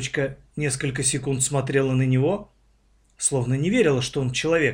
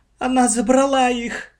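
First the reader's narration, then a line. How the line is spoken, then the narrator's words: Girl sobbing, struggling to speak. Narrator (Russian): сквозь рыдание с трудом произнесла девочка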